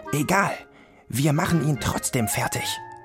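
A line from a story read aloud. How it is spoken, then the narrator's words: Hissed. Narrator (German): zischte Guntram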